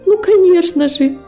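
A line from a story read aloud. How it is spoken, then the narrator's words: Timid exclaiming. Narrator (Russian): воскликнула робость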